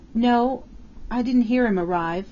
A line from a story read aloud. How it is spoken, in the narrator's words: Flora Miles faltered